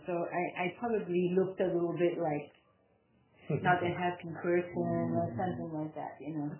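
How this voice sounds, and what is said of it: Speaks with a Belgian accent. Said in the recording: “They hear my accent, right? ... I'm from Belgium”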